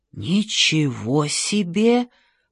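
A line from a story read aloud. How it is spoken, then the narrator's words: Whisper. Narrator (Russian): прошептал Джордж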